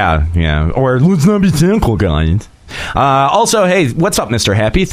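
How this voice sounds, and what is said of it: Usual voice. Nothing is said of it.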